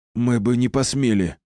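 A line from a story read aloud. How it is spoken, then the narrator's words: Wheezing. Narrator (Russian): просипел Кирилл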